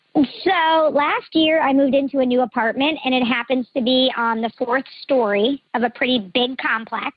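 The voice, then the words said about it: Electronically disguised voice. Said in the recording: “Voice changer is on.”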